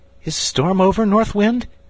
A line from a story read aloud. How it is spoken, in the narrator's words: he called out